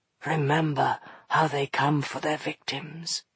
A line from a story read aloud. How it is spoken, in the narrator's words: he went on softly